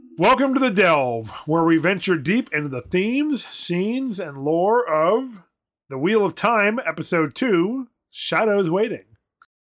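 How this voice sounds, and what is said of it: Radio announcer voice. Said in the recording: “doing my radio announcer voice”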